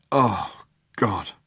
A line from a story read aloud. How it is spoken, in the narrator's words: muttered Ford